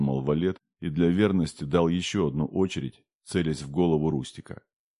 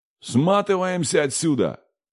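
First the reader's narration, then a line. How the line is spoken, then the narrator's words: Yelling. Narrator (Russian): заорал Валет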